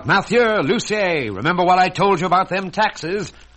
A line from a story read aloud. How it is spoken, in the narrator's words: The two talked excitedly